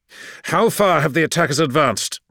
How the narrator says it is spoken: He snapped

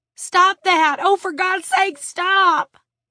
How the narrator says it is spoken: Tiffany shrieked

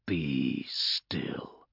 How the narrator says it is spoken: growled one of the armored figures

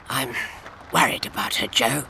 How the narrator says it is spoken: he whispered

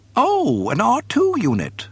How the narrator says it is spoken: he chirped in delight

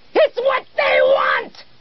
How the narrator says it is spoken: screamed back

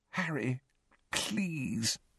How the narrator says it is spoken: Hermione pleaded weakly

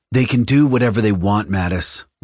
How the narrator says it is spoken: Lorica said sharply

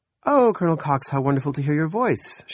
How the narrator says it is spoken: she said brightly

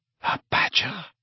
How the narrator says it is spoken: murmured Voldemort

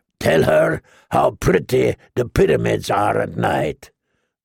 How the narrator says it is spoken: the slaver growled

